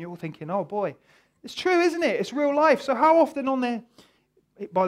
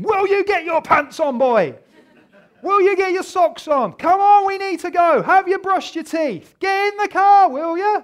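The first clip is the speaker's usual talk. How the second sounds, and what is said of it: Shouting at a child. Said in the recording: “I'm shouting at him that”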